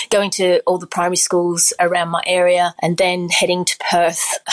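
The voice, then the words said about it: Australian accent. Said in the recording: “I'm sure they've detected the accent ... I grew up in Australia”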